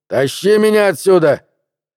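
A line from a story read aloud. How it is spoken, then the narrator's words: Shout. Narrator (Russian): крикнул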